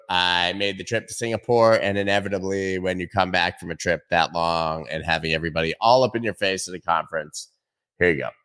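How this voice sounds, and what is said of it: Hoarse, croaky sick voice. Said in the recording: “pretty under the weather. My voice sounds like I've got a frog stuck in my throat”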